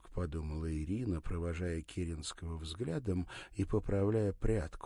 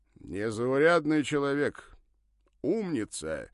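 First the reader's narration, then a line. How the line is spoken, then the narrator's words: Suddenly loud. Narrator (Russian): прервав паузу, неожиданно громко заговорил Ракелов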